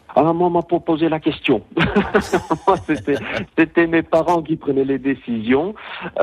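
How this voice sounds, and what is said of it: Flemish-accented French. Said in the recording (French): “À votre accent, on entend que vous arrivez des Flandres”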